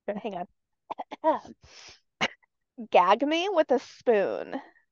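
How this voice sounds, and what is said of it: Valley Girl voice. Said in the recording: “I'm gonna say it in my Valley Girl voice”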